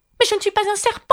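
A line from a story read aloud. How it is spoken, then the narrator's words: Indignant retort. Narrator (French): riposta Alice d'un ton indigné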